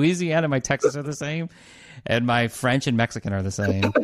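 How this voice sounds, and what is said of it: Usual voice. Nothing is said of it.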